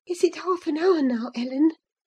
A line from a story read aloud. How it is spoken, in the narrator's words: she whispered in my ear at last